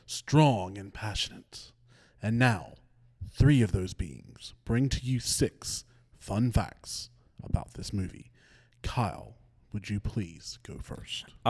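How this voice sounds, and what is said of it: Serious, fatherly narrator voice. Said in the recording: “narrate in that voice ... That was a serious voice. ... that was a great, like, father figure voice.”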